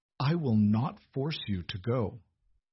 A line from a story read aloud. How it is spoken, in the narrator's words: Edmund said, his voice tight